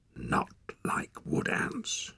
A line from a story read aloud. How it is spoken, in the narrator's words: she whispered